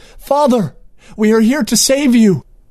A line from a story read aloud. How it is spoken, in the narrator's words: Princess Semlidor exclaimed